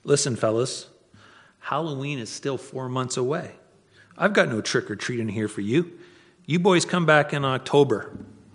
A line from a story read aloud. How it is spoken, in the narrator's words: Watts calmly said